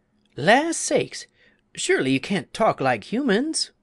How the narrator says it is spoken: Half frightened at hearing a beetle speak in her own language, the woman exclaimed

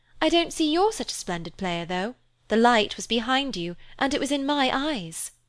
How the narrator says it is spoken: She added merrily

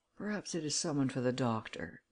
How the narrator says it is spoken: muttered her husband

